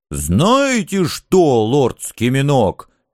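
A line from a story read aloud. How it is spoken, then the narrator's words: Sudden bark. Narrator (Russian): неожиданно рявкнул трусливый рыцарь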